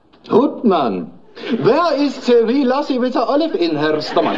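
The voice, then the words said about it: Strange Scottish-German mixed accent. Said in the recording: “That's a very strange accent you've got there ... I was born in Edinburgh, but I studied in Heidelberg.”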